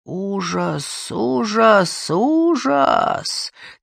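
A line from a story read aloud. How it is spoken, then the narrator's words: Soft female moan. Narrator (Russian): тихонько простонала одна из женщин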